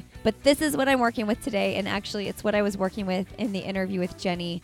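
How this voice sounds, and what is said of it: Scratchy, hoarse voice. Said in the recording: “I have a really sore throat. And I'm very quickly losing my voice... my voice isn't always this scratchy”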